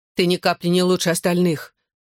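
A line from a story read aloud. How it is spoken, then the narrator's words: Angry. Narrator (Russian): зло заявила Лиззи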